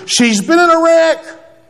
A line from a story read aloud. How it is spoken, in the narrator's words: my wife screams into my ear